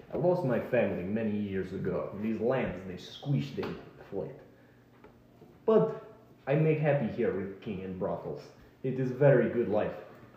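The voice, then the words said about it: Put-on Russian accent. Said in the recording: “Why does he have a Russian accent?”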